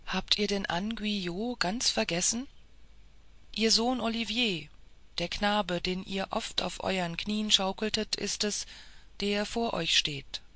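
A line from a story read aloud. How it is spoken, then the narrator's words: Dull hollow voice. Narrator (German): sprach er mit dumpfer Stimme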